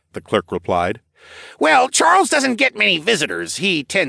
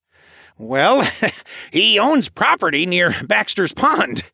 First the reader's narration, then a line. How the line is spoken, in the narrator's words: the clerk chuckled